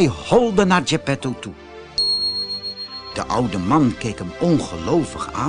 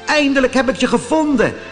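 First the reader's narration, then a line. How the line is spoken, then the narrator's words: Calling out. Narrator (Dutch): riep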